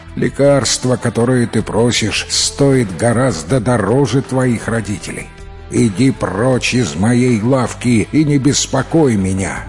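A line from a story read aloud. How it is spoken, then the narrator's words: Through gritted teeth. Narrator (Russian): Сквозь зубы лекарь процедил в ответ на его просьбу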